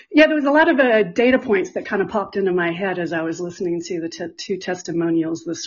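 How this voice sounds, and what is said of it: Slightly out of breath. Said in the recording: “now I'm a little out of breath”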